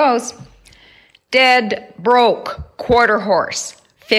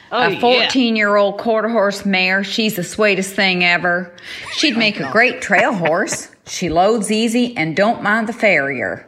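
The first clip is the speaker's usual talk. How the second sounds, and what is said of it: Put-on Tennessee accent. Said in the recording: “I'm going to have to do an accent because this is from Tennessee.”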